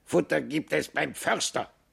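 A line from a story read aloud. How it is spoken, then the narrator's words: Raven's croak. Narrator (German): krächzte der Rabe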